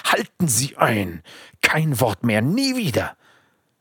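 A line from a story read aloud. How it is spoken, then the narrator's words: Harsh rebuke, terrible voice. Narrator (German): Berger herrschte ihn mit furchtbarer Stimme an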